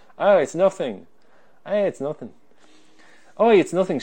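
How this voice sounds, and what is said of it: Imitated foreign accent. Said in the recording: “She wasn't from wherever that accent's from.”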